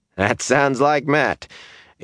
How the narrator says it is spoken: Abel chuckled

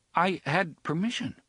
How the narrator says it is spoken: he concluded uneasily

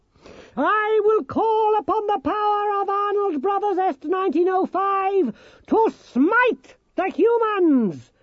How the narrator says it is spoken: shouted Nicodemus

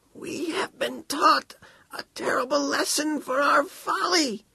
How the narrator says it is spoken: he squeaked, and his voice echoed in his ears, delighting him

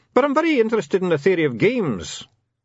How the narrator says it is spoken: said the dwarf cheerfully

